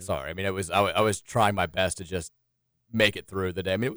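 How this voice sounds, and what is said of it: Voice slightly gone, hoarse. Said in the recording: “my voice is still a little bit gone”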